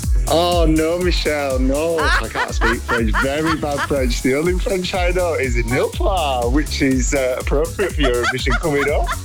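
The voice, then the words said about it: Yorkshire English accent. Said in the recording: “I do hear a Yorkshire accent in there ... I've got a hybrid accent.”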